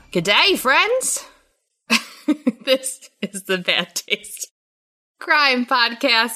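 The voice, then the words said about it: Put-on Australian accent. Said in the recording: “went to an Australian accent.”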